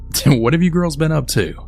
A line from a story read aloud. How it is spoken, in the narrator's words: Becky's dad had then started to laugh and then said